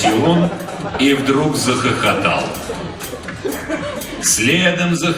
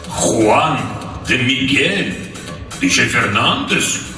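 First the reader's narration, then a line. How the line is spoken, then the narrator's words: Surprised grunt. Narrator (Russian): Полковник удивленно хмыкнул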